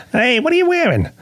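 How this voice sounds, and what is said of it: Jay Leno impression. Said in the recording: “I do one impression. It's Jay Leno having phone sex.”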